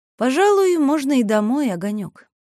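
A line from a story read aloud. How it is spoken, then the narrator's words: Tired. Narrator (Russian): устало сказала Селиванова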